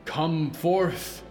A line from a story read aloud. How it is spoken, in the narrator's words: he said, and his voice echoed like thunder across the clearing